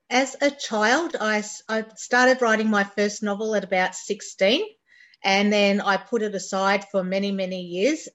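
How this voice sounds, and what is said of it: Australian accent. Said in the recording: “do I detect a little bit of an Australian accent? ... Yes, a completely Australian accent.”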